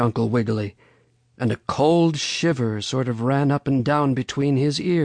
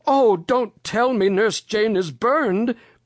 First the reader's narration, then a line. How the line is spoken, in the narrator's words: cried Uncle Wiggily